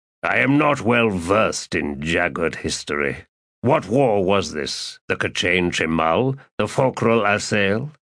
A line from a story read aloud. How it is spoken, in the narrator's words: Kalor grunted and said